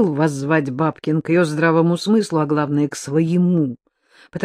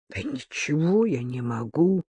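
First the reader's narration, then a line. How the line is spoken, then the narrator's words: Strained, forced out. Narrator (Russian): выдавил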